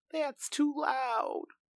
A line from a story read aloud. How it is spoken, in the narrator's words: my brother whimpered